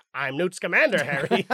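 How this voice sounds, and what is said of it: Newt Scamander character impression. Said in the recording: “Do your best Newt Scamander impression.”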